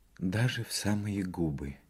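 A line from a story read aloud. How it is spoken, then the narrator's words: Confused whisper. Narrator (Russian): Растерянно, шепотом произнесла Бернара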